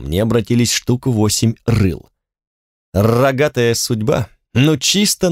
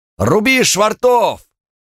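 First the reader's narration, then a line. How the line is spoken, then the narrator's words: Barked. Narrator (Russian): рявкнул кто-то в темноте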